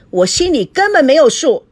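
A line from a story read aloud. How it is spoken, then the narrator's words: Calling from behind. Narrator (Chinese): 赵熙在后面喊着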